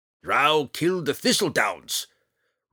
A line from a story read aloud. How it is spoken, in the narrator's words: Roddy roared